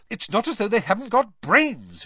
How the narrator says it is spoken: she continued irritably

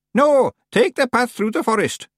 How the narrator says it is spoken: shouted Miss Treason

